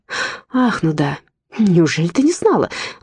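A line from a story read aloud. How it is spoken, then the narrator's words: Exclaimed. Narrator (Russian): воскликнула Зоя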